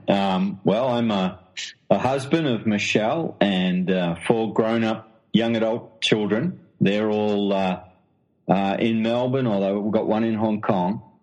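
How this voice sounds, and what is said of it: Australian accent. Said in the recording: “as you can tell from the accent, I'm an Australian”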